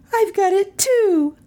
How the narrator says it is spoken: cried Melissa joyously

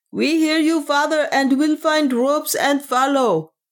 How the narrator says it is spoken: a voice cried in answer

